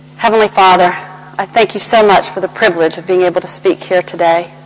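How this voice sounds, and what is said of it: Southern American accent. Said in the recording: “my Southern American accent might be a little bit of a distraction”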